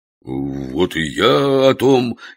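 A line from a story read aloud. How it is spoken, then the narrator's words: Hesitantly raised voice. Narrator (Russian): неуверенно возвысил голос Фома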